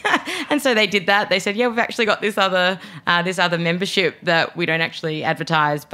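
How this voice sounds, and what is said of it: Australian accent. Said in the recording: “I'm Australian, as my accent is alluding to”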